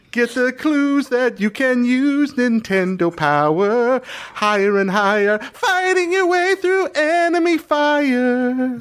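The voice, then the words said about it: Singing in falsetto. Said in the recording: “pretty good falsetto”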